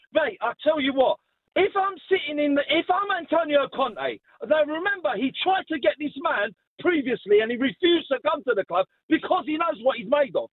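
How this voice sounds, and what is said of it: Raised, loud voice. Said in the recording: “I'm sorry I'm raising my voice”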